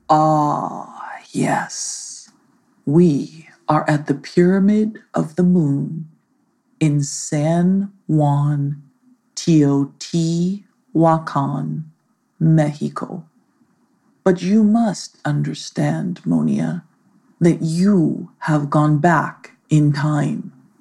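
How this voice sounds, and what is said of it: Somewhat ominous voice. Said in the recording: “in a somewhat ominous voice.”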